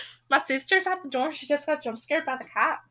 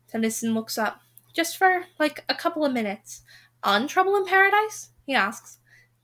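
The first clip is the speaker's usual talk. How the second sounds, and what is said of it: Put-on Scottish accent. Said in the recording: “You're recording your podcast in the Scottish accent”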